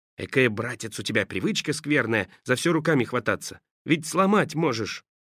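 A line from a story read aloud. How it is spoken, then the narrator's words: Instructive whisper. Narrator (Russian): Саша наставительно шептал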